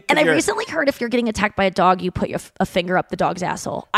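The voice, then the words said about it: Baby voice. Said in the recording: “Doing baby voice again”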